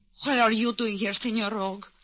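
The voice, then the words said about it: Put-on broken foreign accent. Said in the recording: “you can drop that broken-down accent.”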